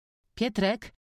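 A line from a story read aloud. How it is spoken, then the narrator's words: Called out. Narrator (Polish): zawołała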